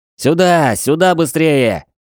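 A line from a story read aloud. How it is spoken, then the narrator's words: Shouting. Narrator (Russian): кричал Джей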